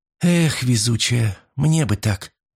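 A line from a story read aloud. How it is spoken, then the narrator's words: Envious sigh. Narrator (Russian): вздохнула Фрэнни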